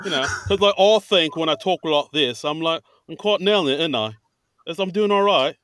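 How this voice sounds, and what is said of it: Put-on British accent. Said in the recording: “my little British accent? Because I think I'm nailing it ... you sound like Michael Caine ... Damn it, I thought I nailed it.”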